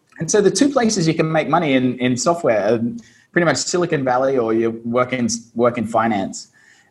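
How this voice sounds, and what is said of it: Australian English accent. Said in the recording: “you can probably hear my accent. I'm from Australia, Brisbane, Australia.”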